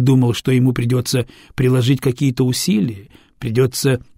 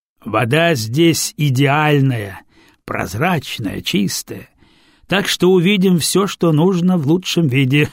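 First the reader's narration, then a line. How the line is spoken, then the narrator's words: Chuckling. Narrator (Russian): хохотнула Бедолов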